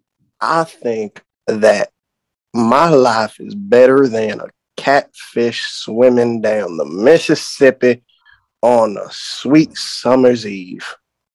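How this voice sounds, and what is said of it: Exaggerated put-on Southern drawl. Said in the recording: “my southern drawl ... your accent sounds a bit more ridiculous than two frogs fucking on a leaf”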